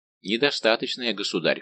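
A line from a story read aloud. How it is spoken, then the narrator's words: Cold reply. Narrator (Russian): холодно отвечал Д'Артаньян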